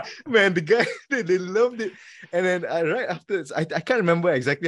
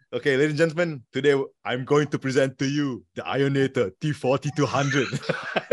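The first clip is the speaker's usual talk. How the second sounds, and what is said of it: Terminator impression. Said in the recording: “my best Terminator impression”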